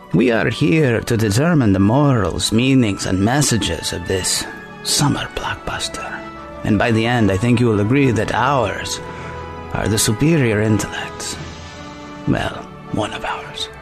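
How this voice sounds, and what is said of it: Layered put-on accent imitation. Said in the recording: “your American imitating a Mexican imitating an Indian accent”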